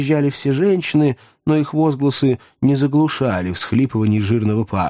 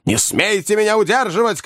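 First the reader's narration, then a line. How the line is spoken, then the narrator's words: Shouting old man. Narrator (Russian): кричал старик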